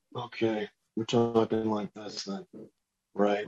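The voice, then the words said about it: Imitates another person's voice. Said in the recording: “I did a Nick Offerman impression ... Nick Offerman, Axe Cop.”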